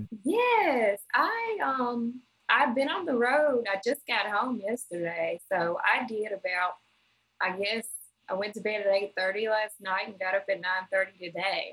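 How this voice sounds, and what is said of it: Brooklyn accent. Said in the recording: “right now you sound like the half the time in Brooklyn. I could tell from your accent.”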